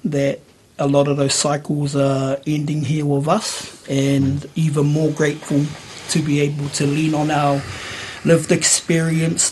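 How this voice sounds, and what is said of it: Voice sounds slightly funny. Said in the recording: “I've just had some teeth removed, so my voice is a little bit funny”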